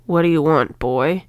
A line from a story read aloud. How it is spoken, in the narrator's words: A voice rasped